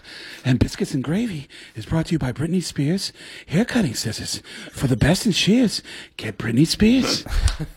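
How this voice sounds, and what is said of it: Breathless, panting imitation of another person's voice. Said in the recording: “this actually is not a good impression ... Out of Breath Mark Wahlberg ... Sounds like Chuck running up a flight of steps.”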